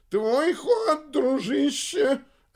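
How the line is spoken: Desperate yell. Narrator (Russian): Отчаянно завопил Бабарский

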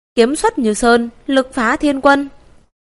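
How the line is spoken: Soft shout. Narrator (Vietnamese): một tiếng quát khẽ

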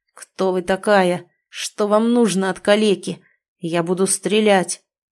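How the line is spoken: Man growling reply. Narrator (Russian): прорычал в ответ мужчина

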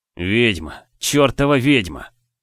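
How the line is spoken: Growl. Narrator (Russian): прорычал он

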